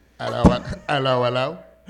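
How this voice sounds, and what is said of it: Imitates another person's voice. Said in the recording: “That's my Idris Elba impersonation.”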